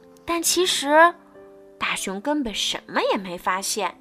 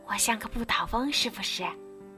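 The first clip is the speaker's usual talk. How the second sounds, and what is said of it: Playful soft whisper. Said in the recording (Chinese): “调皮的小声说”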